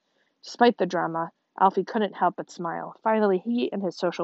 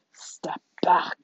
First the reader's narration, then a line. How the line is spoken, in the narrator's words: she growled